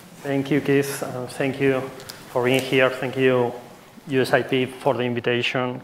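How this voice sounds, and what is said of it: Speaks with a foreign accent. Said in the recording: “Sorry for my accent.”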